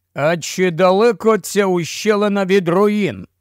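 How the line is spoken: Harsh, sharp tone. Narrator (Ukrainian): сказав це жорстким різким тоном

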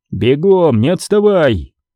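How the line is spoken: Shouting. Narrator (Russian): крикнул напарнице Крис

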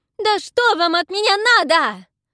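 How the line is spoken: Shrieking while struggling. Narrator (Russian): завизжала, вырываясь из рук негодяя

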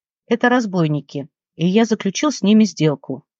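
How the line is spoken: Calm. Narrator (Russian): спокойно ответил Марк

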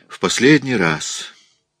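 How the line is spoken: Grimly satisfied sigh. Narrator (Russian): вздохнула Элиза с мрачным удовлетворением

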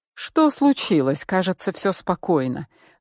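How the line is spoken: Irritated. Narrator (Russian): раздраженно проговорил он

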